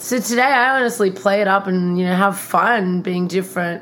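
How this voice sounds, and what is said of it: Australian accent. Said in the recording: “my Australian accent, living in Miami, there's not many Australians here”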